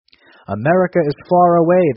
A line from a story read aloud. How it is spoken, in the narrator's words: the minister answered dryly